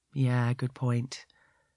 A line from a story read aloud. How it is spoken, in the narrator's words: he says sadly